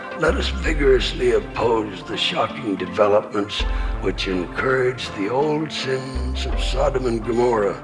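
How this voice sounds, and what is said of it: Raspy, hoarse elderly male voice. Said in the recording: “raspy, hoarse voice from cancer”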